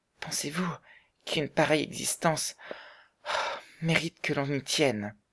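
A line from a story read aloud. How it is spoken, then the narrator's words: Broken, halting question. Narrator (French): demanda Bessie d'une voix entrecoupée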